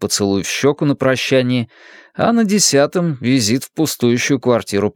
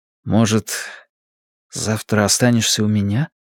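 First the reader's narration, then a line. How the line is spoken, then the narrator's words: Quiet question. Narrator (Russian): тихо спросил он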